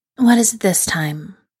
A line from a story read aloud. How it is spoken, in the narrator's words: the woman asks wearily